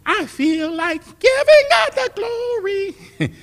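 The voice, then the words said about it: High-pitched imitation of a mother. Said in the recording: “Y'all know my mother's high voice.”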